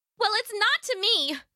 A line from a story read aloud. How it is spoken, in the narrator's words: yelled back